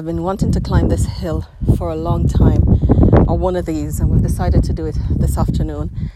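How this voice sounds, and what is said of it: Out of breath, windy. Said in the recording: “I'm out of breath, I am at the top of one of the hills”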